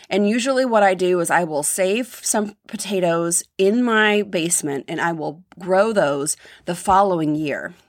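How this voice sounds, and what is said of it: Scratchy voice. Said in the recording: “My voice is really, really scratchy.”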